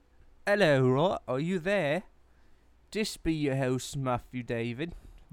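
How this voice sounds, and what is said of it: Badly done put-on accent. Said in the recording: “My accent's terrible ... No, I'm terrible”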